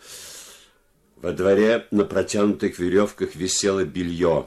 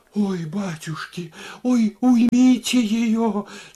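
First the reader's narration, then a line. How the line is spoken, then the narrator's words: Moaning. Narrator (Russian): стонала Варвара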